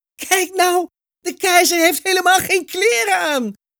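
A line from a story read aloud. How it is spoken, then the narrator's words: Loud laughing call. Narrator (Dutch): begon hij hard te lachen en hij riep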